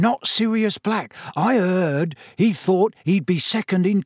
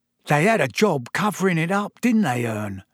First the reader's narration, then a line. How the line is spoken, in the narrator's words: Stan said